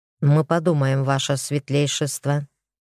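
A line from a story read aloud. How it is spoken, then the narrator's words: Dry, curt. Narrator (Russian): сухо ответил он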